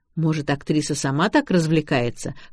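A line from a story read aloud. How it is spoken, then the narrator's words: Skeptical snort. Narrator (Russian): хмыкнул Макс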